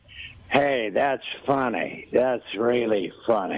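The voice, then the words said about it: Imitates another person's voice. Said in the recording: “I can do an impression of Frank Gorshin”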